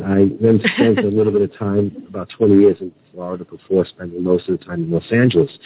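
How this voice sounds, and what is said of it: New York accent. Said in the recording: “I was born in New York City ... born and raised there. I can't lose the accent.”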